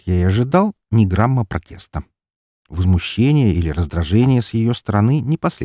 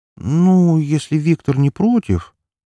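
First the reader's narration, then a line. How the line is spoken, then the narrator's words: Hesitant drawl. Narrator (Russian): протянула она несколько неуверенно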